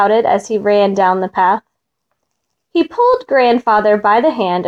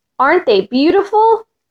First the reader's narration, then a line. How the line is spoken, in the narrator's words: shouted happily